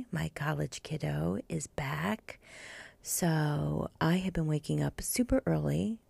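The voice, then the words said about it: Soft whispery speaking voice. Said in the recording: “I'm in sexy whisper mode today.”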